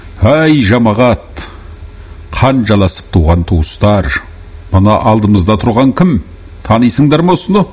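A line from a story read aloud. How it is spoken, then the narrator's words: Plain. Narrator (Kazakh): деді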